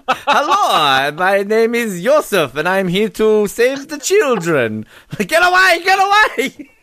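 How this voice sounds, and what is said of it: Exaggerated evil German accent. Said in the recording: “that real, like, evil German accent”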